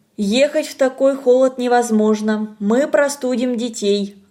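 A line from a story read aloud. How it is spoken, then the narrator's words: Plain. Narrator (Russian): говорит Тамара Сергеевна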